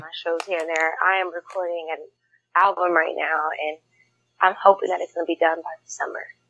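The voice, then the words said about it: Tired-sounding voice. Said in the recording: “I sound tired”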